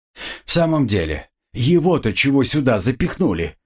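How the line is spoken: After laughing, asking. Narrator (Russian): отсмеявшись, спросила у всех окружающих Фриша

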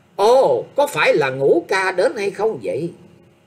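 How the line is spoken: Loud laughing reply, shaken. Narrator (Vietnamese): Sắc mặt của thập thất hoàng tử không khỏi biến hẳn, nhưng vẫn to tiếng cười đáp

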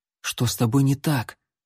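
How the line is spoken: Whisper. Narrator (Russian): шепнул Алан

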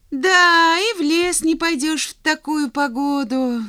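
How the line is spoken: Sighing. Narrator (Russian): вздохнул Хьюги

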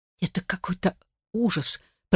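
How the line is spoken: Whispered. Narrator (Russian): прошептала я

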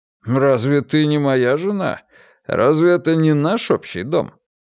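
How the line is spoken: Unpleasant laughing man. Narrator (Russian): Чарльз не сказать, чтобы очень мило рассмеялся

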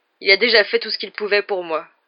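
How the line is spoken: Grumbling. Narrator (French): grogna Hagrid

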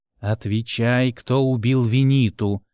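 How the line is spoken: Slow, syllable-by-syllable question. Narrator (Russian): медленно проговаривая каждый слог, спросил Драк

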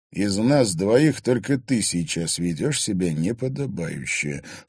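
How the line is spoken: Low voice. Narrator (Russian): вполголоса сказал Егор

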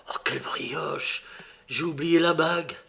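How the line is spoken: Whispered. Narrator (French): Alphonse me dit tout bas

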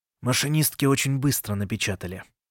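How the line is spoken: Muttered. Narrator (Russian): пробормотал он

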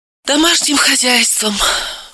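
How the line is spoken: Sighing. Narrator (Russian): вздохнула Левицкая

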